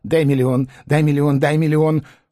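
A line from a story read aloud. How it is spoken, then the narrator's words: Fast beggar's muttering. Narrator (Russian): нищий быстро забормотал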